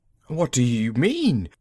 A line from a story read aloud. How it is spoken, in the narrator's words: Magnan quavered